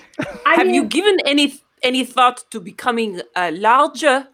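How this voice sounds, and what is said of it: Usual voice. Nothing is said of it.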